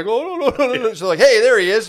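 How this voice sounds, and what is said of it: Put-on Indian accent. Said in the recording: “I'm doing like an Indian accent”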